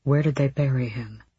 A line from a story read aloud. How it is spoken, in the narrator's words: Rowan asked softly